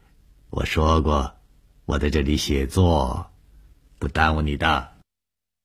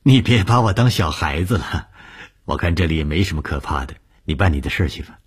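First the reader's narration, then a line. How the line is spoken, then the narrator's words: Smiling. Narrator (Chinese): 笑了笑说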